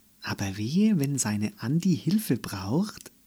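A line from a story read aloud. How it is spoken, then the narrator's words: Purred. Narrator (German): schnurrte Minka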